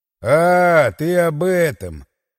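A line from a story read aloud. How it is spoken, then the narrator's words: Drawling. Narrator (Russian): протянул я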